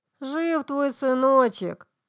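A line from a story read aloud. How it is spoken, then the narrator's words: Sudden lisping nasal voice, close. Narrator (Russian): Шепелявый голос прогнусавил у самого уха так же неожиданно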